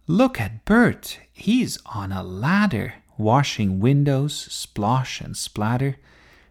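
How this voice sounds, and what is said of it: Dramatic poem-reading voice. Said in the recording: “in her most dramatic voice”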